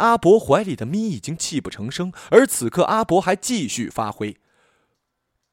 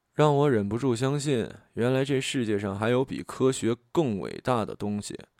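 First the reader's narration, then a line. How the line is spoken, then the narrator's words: Soft voice. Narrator (Chinese): 林生轻声道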